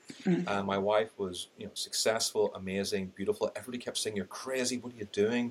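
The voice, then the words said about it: Irish accent. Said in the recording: “I've got an Irish accent”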